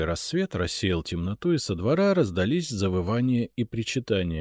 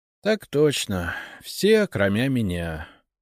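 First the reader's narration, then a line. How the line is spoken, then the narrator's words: Sighing. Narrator (Russian): вздохнул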